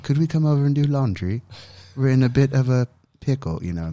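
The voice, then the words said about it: Imitated English accent. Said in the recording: “they're from England ... they have the best accent.”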